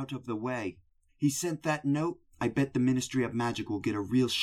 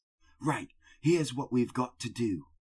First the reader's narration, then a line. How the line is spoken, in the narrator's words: he whispered urgently